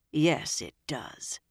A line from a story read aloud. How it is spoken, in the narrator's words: Nynaeve said grimly